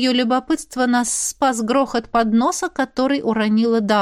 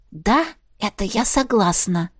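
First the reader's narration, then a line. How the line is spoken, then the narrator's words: Happy whisper. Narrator (Russian): шепнула, кусая губы, чтобы не расплыться в самой идиотской и счастливой улыбке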